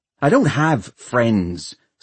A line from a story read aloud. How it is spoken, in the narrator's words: snapped Hester